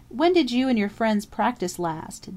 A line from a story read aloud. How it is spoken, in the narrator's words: Dundee asked